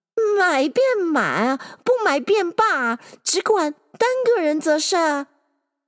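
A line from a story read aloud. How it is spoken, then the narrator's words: Old woman clamoring. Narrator (Chinese): 婆子乱嚷道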